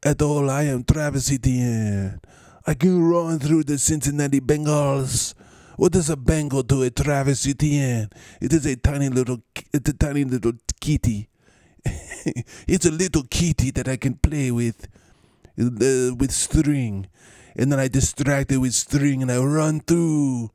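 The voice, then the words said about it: Botched mixed Spanish-French accent. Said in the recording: “kind of like a mix of a Spanish accent. A French accent. That went horribly off the road.”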